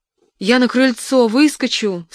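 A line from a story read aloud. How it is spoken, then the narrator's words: Sobbing. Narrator (Russian): всхлипывая, продолжала свой рассказ Лида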